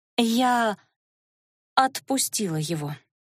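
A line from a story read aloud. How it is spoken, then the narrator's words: Halting, forced out. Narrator (Russian): с запинкой выдавила она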